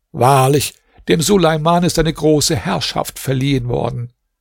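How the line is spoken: Called out. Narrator (German): rief

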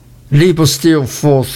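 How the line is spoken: Exclamation. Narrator (German): rief aus

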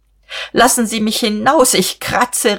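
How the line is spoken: Calling out through laughter. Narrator (German): rief sie und wollte kreischen, aber sie musste lachen, was sie wehrlos machte

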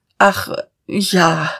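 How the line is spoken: Stammering. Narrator (German): stammelte Dieterich

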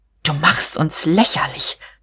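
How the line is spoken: Hissing. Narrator (German): zischte sie

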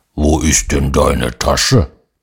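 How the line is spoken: Bear-like grumble. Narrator (German): ein Braunbär, der brummt

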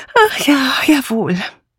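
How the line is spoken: Sigh. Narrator (German): Dora Banner seufzte

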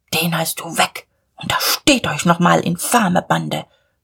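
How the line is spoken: Muttering. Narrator (German): murmelte Diederich

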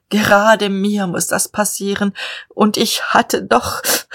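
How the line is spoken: Sobbing. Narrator (German): er schluchzte

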